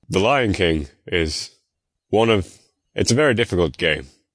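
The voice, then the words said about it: Imitates another person's voice. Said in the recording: “the voice of Mufasa was voiced by James Earl Jones ... in my attempted voice”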